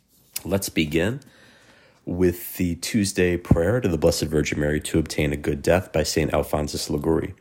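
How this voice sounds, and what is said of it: Sick, under-the-weather voice. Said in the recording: “I apologize for my voice. I am under the weather”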